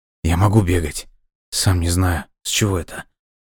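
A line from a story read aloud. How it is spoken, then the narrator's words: Whisper. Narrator (Russian): прошептал Дима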